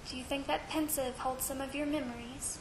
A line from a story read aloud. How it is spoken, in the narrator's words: Harry said softly